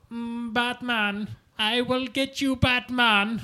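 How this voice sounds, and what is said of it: Old Bond-style villain voice. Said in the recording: “So, like, a kind of old James Bondy villain type, like, villain voice. ... would never think to call that accent Japanese”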